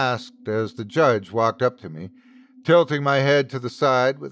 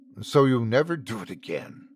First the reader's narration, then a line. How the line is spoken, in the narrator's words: the judge hissed